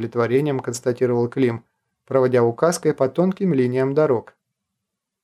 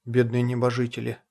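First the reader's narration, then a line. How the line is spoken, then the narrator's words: Muttered. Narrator (Russian): пробормотал Кронин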